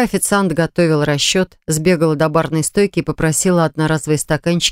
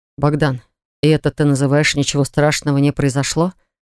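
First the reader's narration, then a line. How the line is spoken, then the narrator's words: Grim question. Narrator (Russian): мрачно спрашивает Марк у вышедшего из машины брата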